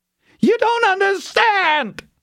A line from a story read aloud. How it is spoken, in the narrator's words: he screamed at her, wild urgency in his voice